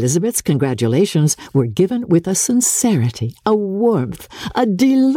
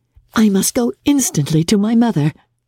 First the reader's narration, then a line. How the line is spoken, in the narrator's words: cried Jane